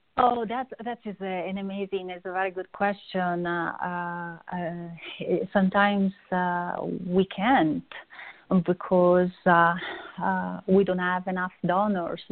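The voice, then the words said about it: Strong foreign accent. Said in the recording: “I love your accent. That's pretty neat accent. ... It's a little bit too strong at times. ... it's a pretty accent.”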